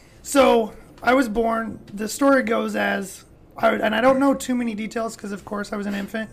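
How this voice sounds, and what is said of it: Damaged, strained-sounding voice. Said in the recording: “my voice is a little messed up ... my vocal cords ended up being collapsed”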